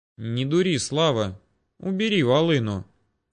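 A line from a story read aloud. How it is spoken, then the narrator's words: Calm. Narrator (Russian): не менее спокойно заявил Ермолов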